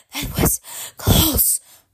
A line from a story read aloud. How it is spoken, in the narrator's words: said Tiger, panting